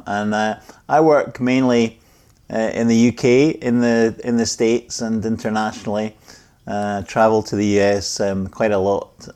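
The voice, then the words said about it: Scottish accent. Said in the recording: “heard the accent right off the bat”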